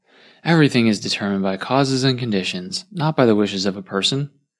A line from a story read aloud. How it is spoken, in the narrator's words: Master Yuanzi sighed